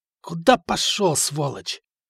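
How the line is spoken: Hoarse voice. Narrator (Russian): хриплый голос

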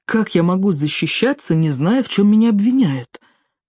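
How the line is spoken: Quiet. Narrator (Russian): тихо сказал Тиори

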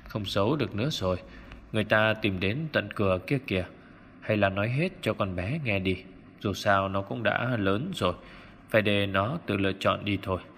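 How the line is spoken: Sorrowful sighing. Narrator (Vietnamese): Ông Dư thở dài não nề nói

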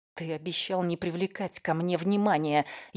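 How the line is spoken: Barely audible, through teeth. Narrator (Russian): едва слышно процедила я сквозь зубы

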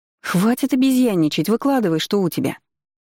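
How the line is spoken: Sharp interruption. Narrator (Russian): Резко оборвала ее Корженевская

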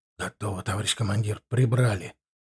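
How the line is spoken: Nearby whisper. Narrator (Russian): прошептал голос Макара

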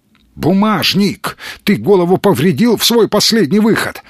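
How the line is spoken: Exclaimed. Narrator (Russian): воскликнул Петухов

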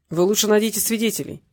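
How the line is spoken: Angry curt investigator. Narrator (Russian): сердито бросил следователь

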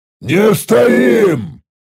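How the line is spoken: Leader's growl. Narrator (Russian): прорычал новый приказ предводитель Даррет

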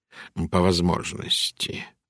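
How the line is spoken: Quiet. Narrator (Russian): сказал он тихо

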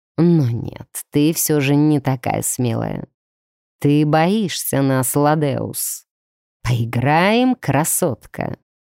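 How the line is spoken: Low rumbling voice. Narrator (Russian): пророкотал низким голосом Варны

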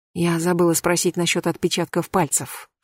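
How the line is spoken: Whisper in ear. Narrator (Russian): шепнула Катя на ухо Марьяне

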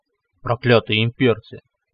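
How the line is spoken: Angry growl. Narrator (Russian): прорычал Тронар, злобно зыкнув

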